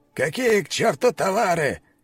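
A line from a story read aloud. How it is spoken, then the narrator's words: Shouting. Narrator (Russian): кричал он тогда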